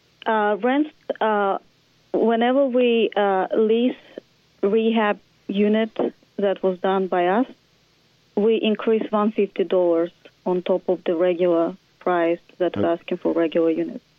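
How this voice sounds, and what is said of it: Heavy accent, hard to understand. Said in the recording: “your accent's getting ... in the way of the communication.”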